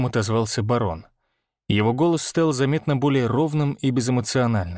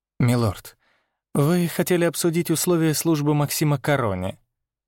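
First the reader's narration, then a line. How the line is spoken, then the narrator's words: Gentle prompt, advisor. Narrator (Russian): мягко подсказал советник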